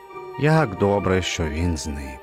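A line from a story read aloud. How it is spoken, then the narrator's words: Relieved sigh. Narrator (Ukrainian): Полегшено зітхнув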